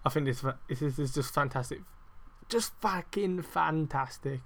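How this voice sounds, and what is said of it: Brief put-on unidentified accent. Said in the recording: “I don't know what accent that was”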